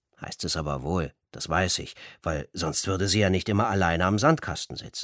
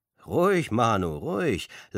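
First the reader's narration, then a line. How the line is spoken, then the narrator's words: Laughing. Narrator (German): lacht ihr Ronny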